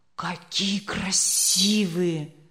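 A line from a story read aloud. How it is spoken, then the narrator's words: Breathless exclamation. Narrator (Russian): выдохнул Леня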